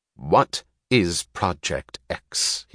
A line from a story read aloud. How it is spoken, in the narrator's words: he asked sternly